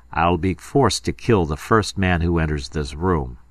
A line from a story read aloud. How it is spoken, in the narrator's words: I said in a steady voice